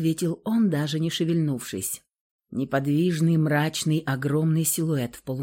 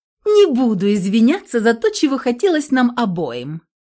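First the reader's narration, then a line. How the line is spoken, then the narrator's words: Mocking. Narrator (Russian): насмешливо повторила Александра слова Михаила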